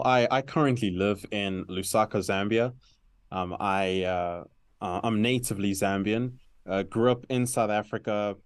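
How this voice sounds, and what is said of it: Complex multicultural accent. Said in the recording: “my accent might sound a little complex”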